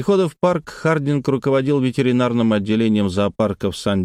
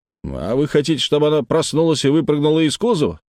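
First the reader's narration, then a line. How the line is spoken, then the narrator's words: Snapped. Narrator (Russian): огрызнулся Хардинг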